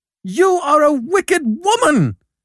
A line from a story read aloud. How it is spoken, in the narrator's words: cried Jem, in a dreadful passion